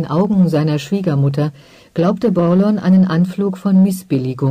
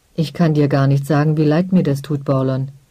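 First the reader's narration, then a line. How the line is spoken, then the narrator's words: Plain. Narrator (German): sagte der Gildemeister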